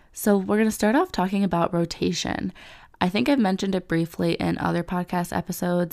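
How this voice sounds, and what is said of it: Slightly different, congested-sounding voice. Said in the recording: “I do have a little bit of a cold right now ... my voice sounds a little different”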